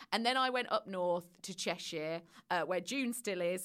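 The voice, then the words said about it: Midlands English accent. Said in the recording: “I lived sort of in the Midlands way, which is why I've got that twang”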